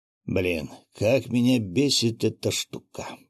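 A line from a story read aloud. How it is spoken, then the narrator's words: Grumbling fisherman. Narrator (Russian): проворчал рыбак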